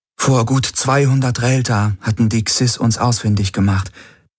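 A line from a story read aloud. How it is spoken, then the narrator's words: Sad voice. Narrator (German): hatte Ylana mit trauriger Stimme erklärt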